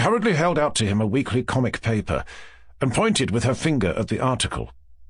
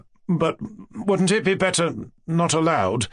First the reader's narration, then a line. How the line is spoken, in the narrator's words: faltered Mushkin, very much embarrassed